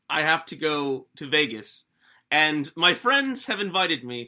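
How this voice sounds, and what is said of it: Bad put-on British accent. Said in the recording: “Sorry with the bad British accent”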